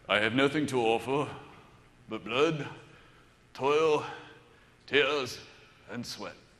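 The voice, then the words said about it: Imitates another person's voice. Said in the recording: “That actually sounds better with a Churchill accent, doesn't it? Let me try it.”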